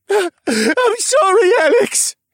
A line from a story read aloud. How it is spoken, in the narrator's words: he wailed, as his face screwed up into a rictus of pain